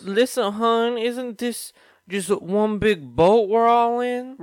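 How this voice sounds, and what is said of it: Put-on accent. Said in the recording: “I like that accent.”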